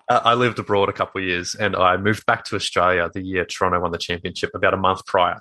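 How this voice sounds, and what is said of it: Australian accent. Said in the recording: “you've got an Australian accent”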